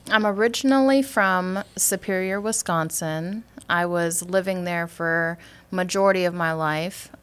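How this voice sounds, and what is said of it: Wisconsin accent. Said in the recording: “you got that Wisconsin accent.”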